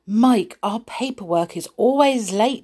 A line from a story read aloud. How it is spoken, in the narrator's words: said